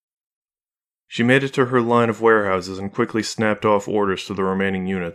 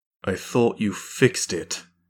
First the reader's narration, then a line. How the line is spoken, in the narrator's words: Carradine said icily